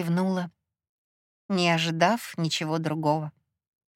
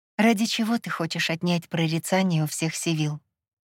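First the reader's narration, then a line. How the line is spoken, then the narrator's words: Quiet asking. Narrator (Russian): Тихо уточнила я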